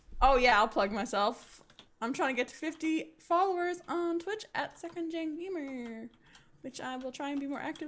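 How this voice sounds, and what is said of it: New Zealand English accent. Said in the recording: “my New Zealand accent”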